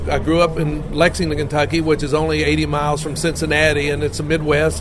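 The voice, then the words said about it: Kentucky Southern accent. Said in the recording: “a Kentucky kid and a Southern kid ... just so they could hear my accent”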